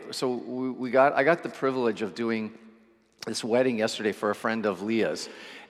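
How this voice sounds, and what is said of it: Slightly scratchy voice. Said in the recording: “My voice is also feels a little scratchy today.”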